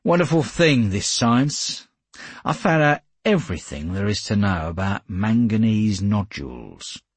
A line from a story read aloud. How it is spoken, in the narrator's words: I said dryly